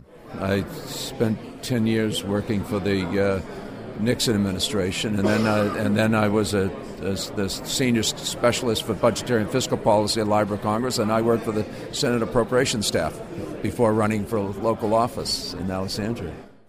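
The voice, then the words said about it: Boston accent. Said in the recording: “his voice offers a clue to his hometown ... That Boston accent”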